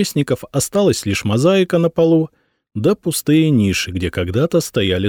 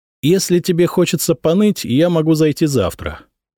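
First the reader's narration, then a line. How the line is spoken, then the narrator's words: Calm reply. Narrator (Russian): спокойно ответил Святослав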